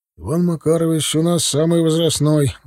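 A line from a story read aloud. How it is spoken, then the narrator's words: Sigh. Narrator (Russian): вздохнул Алексей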